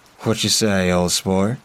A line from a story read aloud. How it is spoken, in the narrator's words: He asked in his thick southern drawl